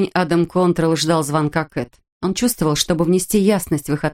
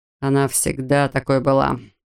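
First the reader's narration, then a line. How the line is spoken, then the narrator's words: Sigh. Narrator (Russian): вздохнул Эд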